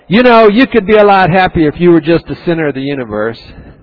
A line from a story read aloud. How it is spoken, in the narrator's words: our spirits yell